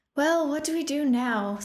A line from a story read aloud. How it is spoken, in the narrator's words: Thea sighed in frustration